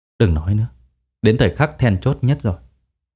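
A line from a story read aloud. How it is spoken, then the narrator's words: Soft instruction. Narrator (Vietnamese): ông khẽ dặn dò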